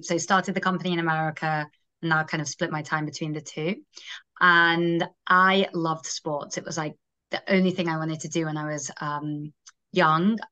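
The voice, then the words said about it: Manchester English accent. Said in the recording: “I grew up in Manchester, England, hence the accent.”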